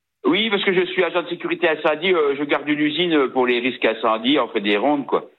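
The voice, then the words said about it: Slight regional French accent. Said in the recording (French): “vous avez un petit accent, vous m'appelez d'où, de Belgique?”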